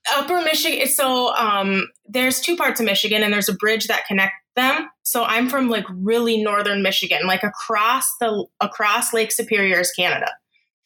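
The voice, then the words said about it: Strong Upper Midwest American accent. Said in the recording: “people have not heard your accent as I have ... she's obviously from like Wisconsin or Minnesota or something ... this strong accent”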